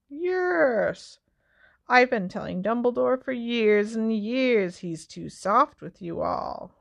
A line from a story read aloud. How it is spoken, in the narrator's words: said Filch, chuckling nastily